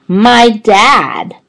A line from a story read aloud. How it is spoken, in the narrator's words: A voice shouted out